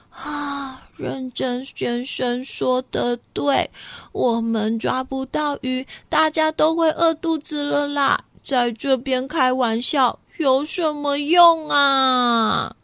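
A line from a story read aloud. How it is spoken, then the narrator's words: Gloomy sighing. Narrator (Chinese): 又开始唉声叹气的了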